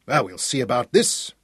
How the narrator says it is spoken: he muttered grimly

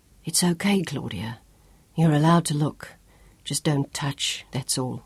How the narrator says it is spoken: Job whispered

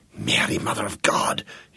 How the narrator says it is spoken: he whispered

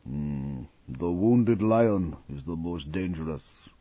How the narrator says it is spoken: Aboli grunted

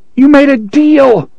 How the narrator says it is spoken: the boy screamed after him

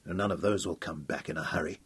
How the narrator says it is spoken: said grimly

